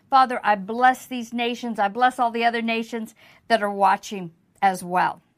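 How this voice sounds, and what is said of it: American accent. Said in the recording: “I know this is an American accent.”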